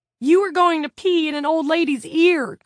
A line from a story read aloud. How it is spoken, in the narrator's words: cried Jared